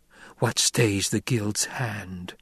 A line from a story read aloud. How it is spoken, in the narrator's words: Jessica whispered